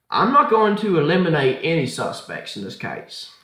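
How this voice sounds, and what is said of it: Put-on accent. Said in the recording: “That was a nice accent”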